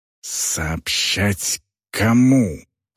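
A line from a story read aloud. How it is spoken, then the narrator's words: Female orc hissing. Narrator (Russian): прошипела орка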